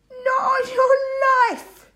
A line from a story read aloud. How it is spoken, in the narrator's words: Tommy laughed